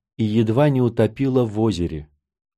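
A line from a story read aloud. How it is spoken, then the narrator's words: Gloomy. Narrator (Russian): мрачно сказала Катти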